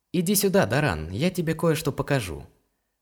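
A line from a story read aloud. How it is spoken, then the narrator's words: Gentle call. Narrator (Russian): ласково позвал Илар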